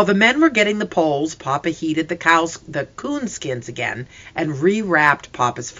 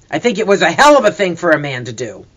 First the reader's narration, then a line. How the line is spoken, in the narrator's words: The deep voice growled